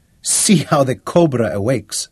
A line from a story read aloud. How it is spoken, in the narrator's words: laughed